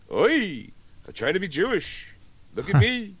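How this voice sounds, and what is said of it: Exaggerated mock Jewish accent. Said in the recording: “that shitty Jewish accent ... that's over the top acting”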